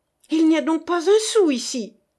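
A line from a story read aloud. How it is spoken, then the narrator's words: Frenzied shouting. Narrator (French): cria Diard avec frénésie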